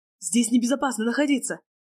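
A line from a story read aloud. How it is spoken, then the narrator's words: Shouted. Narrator (Russian): крикнул Леонид Сергеевич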